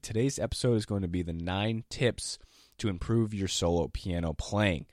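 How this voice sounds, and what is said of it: Unusually deep, low sick voice. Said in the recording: “my voice is a little lower than usual. I have an extra octave... my voice is pretty low as it is, but I have an extra octave now. I can sing some baritone lines, but I am sick... I'm just going to sound like Barry White for this entire podcast.”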